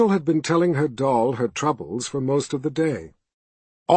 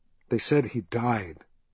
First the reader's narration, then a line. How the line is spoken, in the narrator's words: she confided softly